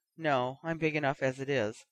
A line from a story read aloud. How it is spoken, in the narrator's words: Penelope mumbled